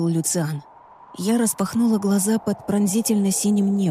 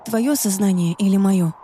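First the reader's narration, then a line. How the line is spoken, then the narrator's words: Plain. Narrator (Russian): спросила я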